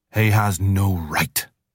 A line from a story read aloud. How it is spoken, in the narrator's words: Father Wolf began angrily